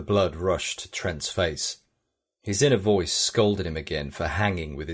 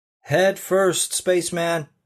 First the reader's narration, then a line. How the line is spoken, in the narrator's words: shouted